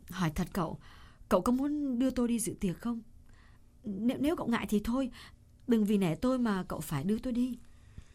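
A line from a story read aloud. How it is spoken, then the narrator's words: Hesitant woman. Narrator (Vietnamese): Cô ngập ngừng một chút rồi nói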